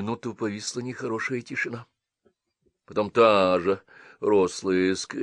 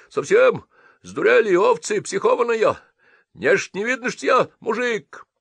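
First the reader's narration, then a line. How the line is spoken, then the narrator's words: Yelling. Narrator (Russian): заорал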